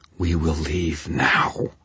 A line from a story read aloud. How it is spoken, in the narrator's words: she growled